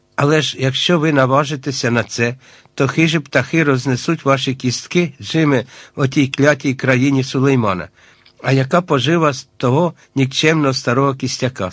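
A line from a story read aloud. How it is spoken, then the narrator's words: Plain. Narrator (Ukrainian): сказав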